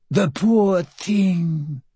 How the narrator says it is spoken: the Countess cooed

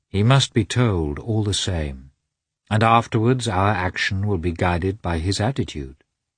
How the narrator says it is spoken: said Vronsky, persuasively and gently, trying to pacify her

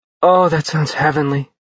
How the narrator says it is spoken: Josie sighed

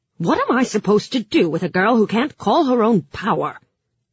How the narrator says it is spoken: she growled

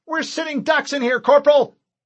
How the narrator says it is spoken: Fincher yelled

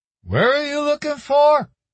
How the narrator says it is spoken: some other guy called out

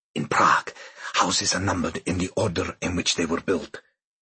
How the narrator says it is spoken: Kubicek whispered

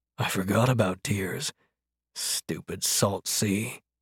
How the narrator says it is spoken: murmured

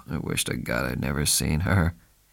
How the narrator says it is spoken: He sighed and said

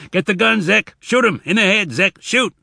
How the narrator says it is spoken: Tobias came up spitting water, and then he managed to shout

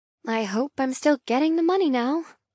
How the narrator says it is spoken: I mumble sarcastically

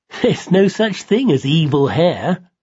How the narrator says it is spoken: Simon giggled

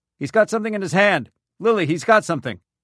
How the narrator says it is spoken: shouted

